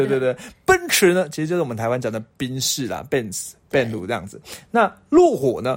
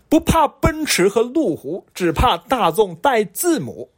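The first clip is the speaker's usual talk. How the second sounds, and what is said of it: Mainland Chinese accent. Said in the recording (Chinese): “我一定要用它的原文的口音来念哦 ... 一听就是中国的”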